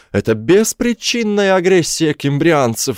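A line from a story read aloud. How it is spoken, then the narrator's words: Yell. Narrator (Russian): завопил Мотта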